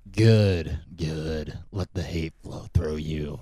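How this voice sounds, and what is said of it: Imitates Emperor Palpatine's voice. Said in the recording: “your best Emperor Palpatine impersonation”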